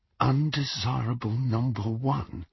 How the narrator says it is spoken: Harry muttered under his breath

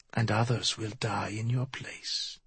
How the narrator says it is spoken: Miyamune said softly

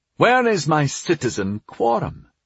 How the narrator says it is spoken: demanded Garlin sharply, breaking off from whatever he had been saying

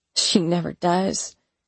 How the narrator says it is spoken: I grumbled under my breath

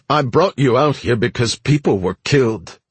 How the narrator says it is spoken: Caesar snapped, his voice showing its first hint of

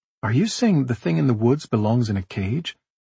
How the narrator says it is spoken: Nora asked

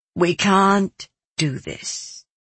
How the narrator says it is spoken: Anshula said to me, so very sadly but firmly

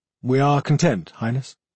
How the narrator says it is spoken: Aspect Arlen replied in a neutral tone

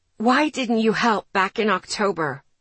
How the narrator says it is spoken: I asked, my voice turning raspy

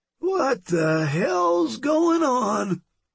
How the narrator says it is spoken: mumble drunkenly

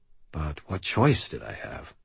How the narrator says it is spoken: I sighed

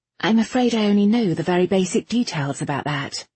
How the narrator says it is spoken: Irene said

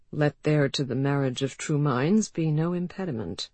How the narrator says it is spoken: said Bay softly

